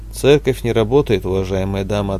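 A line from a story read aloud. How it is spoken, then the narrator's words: Plain. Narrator (Russian): ответил отец Михаил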